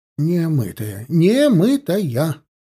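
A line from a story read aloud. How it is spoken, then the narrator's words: Exclamation. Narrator (Russian): воскликнул Федот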